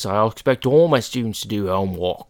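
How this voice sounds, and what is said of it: Put-on Cockney accent. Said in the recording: “That's Cockney.”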